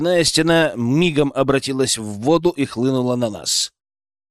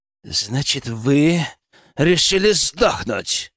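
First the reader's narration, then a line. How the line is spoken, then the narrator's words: Furious growl. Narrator (Russian): разъяренно прорычал Крупский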